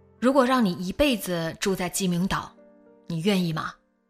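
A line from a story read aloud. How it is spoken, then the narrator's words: Plain. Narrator (Chinese): 他…说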